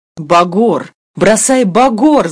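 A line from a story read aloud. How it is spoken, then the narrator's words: Shouting crowd. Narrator (Russian): закричали на пароме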